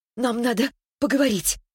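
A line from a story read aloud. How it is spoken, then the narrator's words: Breathed out. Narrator (Russian): выдохнула Светлана прямо в капюшон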